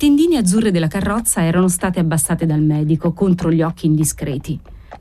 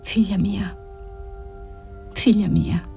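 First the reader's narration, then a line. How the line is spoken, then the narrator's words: Murmured. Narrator (Italian): Margherita mormorava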